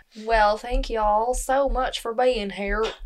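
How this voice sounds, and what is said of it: Put-on Southern accent. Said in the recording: “Insert random... Southern accent.”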